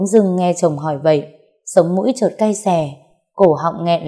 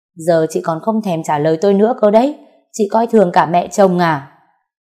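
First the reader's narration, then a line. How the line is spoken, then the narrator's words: Mother-in-law screaming. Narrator (Vietnamese): Mẹ chồng tôi gào lên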